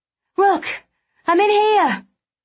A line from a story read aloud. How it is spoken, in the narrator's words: I cried